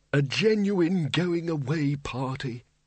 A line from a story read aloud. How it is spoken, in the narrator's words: kept muttering